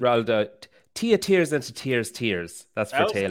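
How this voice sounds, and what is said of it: Irish accent. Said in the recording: “You got a great Irish accent.”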